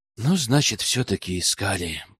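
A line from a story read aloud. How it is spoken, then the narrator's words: Muttering under breath. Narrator (Russian): пробормотал в полголоса парень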